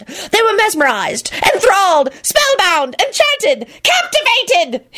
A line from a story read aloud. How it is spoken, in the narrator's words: he shrieked